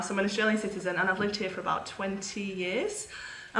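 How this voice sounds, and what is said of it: British accent. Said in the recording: “I'm originally from the UK. You can probably tell from my accent I'm not a full Aussie”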